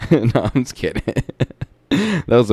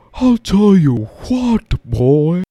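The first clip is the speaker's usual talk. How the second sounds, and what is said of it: Bad Hank Hill impression. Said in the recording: “the worst fucking Hank Hill voice I ever made in my entire life”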